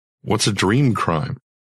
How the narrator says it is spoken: She sighed, as if I were deliberately obtuse

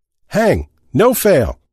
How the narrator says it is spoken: someone shouted

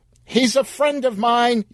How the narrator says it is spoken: yelled Sheila

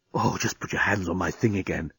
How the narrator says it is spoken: he was whispering in her ear

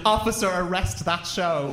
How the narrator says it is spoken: a member of the public shouted

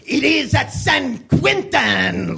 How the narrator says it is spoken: Leonardo said in an oddly Spanish accent

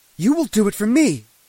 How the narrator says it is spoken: she shouted in my face

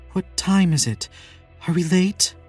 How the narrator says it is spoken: says between gasps

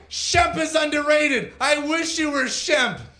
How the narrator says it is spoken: Mo lunged at his brother and yelled

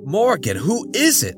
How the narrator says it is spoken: John yelped

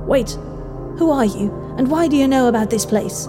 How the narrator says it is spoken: She asked frantically

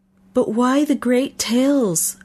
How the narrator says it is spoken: I blurted out

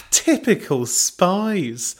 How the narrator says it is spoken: Belinda laughed

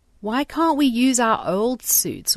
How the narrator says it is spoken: Waverly whines

